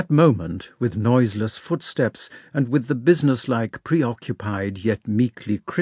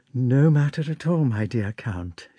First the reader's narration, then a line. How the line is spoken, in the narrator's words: she said, meekly